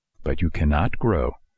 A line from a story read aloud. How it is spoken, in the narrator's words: answered the fairy